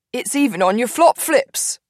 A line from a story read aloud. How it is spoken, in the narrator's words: Cyrus chuckles